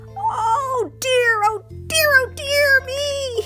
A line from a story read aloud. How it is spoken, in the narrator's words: wailed